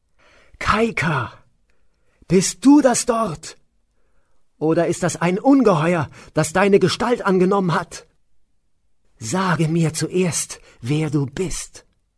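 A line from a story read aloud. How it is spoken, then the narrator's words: Screaming. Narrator (German): schrie er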